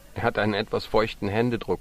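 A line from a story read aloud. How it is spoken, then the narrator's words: Laughing. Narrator (German): lachte Susi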